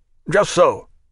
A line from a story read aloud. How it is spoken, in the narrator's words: quickly said the ex-soldier